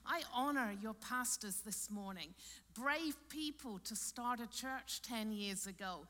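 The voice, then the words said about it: Austrian-accented English. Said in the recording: “I'll let you just get used to my accent. Back home in Austria, I'm speaking German”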